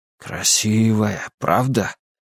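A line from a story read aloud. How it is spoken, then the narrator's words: Father's whisper. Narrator (Russian): прошептал отец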